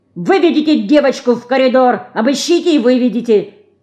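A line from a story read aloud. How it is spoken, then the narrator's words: Angry shout. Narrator (Russian): гневно закричал он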